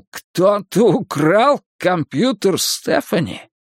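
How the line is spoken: Shocked exclamation. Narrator (Russian): Потрясенный Майкл воскликнул

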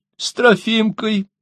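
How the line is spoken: Sobbing. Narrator (Russian): всхлипнула Ксения

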